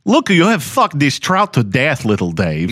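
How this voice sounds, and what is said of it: Mock Belgian or Dutch accent. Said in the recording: “My racist accent would be the same ... You guys do the most okay accents”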